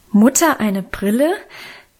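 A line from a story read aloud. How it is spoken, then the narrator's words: Children, laughing and shocked. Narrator (German): riefen wir Kinder teils lachend, teils entsetzt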